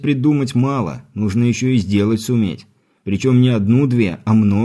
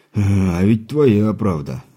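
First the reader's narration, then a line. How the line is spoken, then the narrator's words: Rueful sigh. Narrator (Russian): сокрушенно вздохнул кузнец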